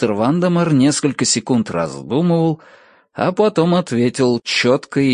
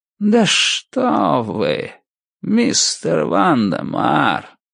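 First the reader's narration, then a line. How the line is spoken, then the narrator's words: Slow, savoring each word. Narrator (Russian): Медленно проговорил мистер Крупп, как всегда наслаждаясь каждым словом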